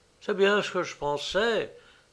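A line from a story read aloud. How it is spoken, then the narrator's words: Soft. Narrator (French): dit doucement Bertfield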